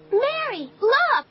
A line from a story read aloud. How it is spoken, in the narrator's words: She shouted